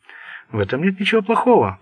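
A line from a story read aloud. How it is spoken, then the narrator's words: Pleasantly surprised cooing. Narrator (Russian): проворковала она, приятно удивленная его состоянием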